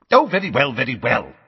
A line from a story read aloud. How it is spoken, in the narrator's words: snapped Fudge